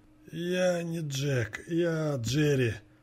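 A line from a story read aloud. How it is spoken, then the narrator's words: Heavy rasp, then coughing. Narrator (Russian): тяжело прохрипел он и закашлялся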